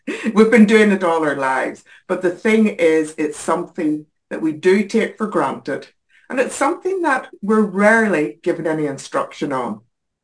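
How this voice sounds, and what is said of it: Northern Irish accent. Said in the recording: “originally from Northern Ireland, as you can probably tell from the accent.”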